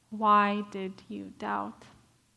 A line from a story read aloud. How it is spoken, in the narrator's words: tenderly asks him